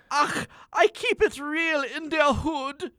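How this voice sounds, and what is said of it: Character voice with German accent. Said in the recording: “What kind of accent is that? ... It's urban German.”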